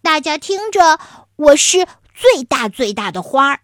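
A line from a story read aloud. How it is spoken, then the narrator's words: Loud proud shouting. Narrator (Chinese): 艳艳的黄色花就喇叭一样的高喊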